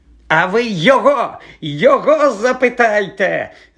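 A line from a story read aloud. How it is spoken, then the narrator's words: Tearful shriek. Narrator (Ukrainian): заверещав Філч, повертаючи до Гаррі своє прищаве і заплакане обличчя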